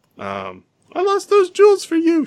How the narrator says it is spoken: she wailed miserably

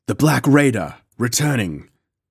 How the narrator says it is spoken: I exclaimed

